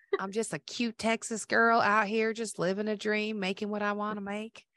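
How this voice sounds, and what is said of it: Put-on Texas accent. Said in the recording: “my best impression of my Texas accent.”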